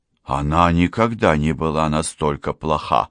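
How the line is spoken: Sighing. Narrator (Russian): вздохнула я

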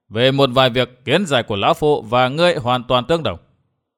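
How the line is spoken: Loud laughter. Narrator (Vietnamese): Vạn Thế Hảo cười lớn

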